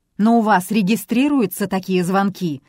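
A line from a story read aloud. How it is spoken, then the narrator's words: Irritated bark. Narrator (Russian): раздраженно рявкнул Рис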